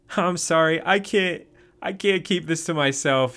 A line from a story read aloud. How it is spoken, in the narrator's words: said, laughing